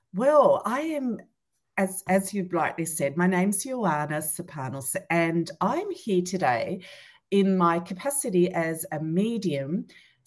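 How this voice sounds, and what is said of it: Australian accent. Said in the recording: “Melbourne, Australia ... can you hear her accent”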